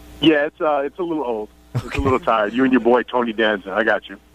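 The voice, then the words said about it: New York accent. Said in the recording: “people always bringing up your accent ... Everybody has something to say about my accent. ... are you from Queens or Brooklyn, or are you from Long Island?”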